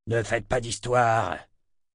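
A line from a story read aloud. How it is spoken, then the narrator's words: Growling. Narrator (French): grogna-t-il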